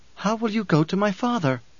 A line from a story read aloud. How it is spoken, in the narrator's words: she pleaded